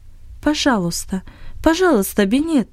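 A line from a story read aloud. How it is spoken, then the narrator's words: Quiet pleading. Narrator (Russian): тихо произнесла Анни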